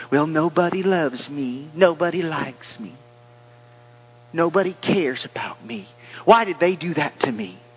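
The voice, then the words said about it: Put-on self-pitying victim voice. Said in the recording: “I don't know why I do that voice whenever I use that”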